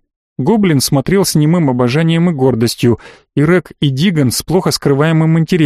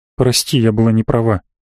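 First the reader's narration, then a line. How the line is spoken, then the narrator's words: Quiet young woman. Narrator (Russian): все так же тихо сказала девушка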